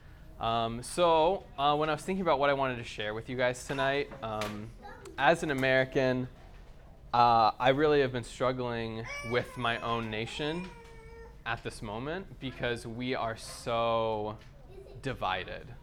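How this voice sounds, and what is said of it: American accent. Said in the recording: “if you can't tell from my accent, I'm from America.”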